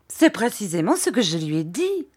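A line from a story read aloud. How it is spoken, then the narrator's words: Mother's exclamation. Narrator (French): s'écria sa mère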